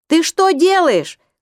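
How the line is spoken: Shouting with easy familiarity. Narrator (Russian): кричал Эдик так, будто они расстались только вчера, а не 34 года назад

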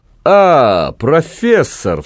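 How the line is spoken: Exclaimed with exaggerated joy. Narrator (Russian): вскричал он преувеличенно радостно

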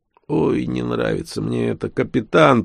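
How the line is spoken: Grumbling. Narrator (Russian): проворчал Нечипаренко

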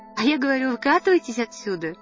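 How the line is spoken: Laughing. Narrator (Russian): рассмеялась и Надя

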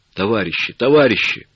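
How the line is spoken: Painful hoarse wheeze. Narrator (Russian): сипел он, и в чуже становилось больно за его горло

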